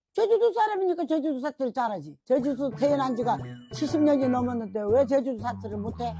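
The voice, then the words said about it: Korean with a Jeju dialect. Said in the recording (Korean): “제주도 사투리 왜 이렇게 잘해요?”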